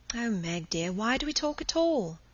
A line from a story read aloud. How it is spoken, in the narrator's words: She sighed wearily